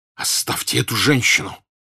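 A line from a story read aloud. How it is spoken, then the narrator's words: Furious hoarse rasp. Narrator (Russian): Бешеным голосом прохрипел Пьер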